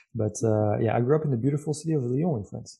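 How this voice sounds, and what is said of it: French accent. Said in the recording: “I grew up in France. I'm pretty sure from my accent you guys have figured it out”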